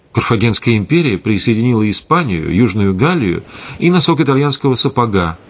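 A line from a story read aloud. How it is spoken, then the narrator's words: Plain, young woman. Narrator (Russian): сказала девушка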